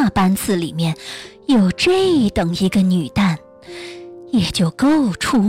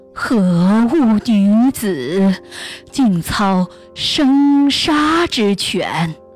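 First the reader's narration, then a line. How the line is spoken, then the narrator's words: Admiring praise. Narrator (Chinese): 人都赞叹他道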